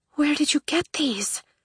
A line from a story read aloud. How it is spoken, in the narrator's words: Scarlet breathed